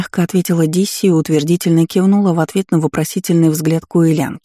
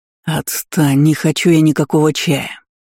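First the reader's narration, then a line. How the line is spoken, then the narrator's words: Growl. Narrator (Russian): рыкнул на Тергилиса первый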